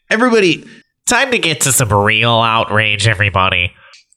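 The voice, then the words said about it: Imitates another person's voice. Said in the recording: “That was my Maddox impression.”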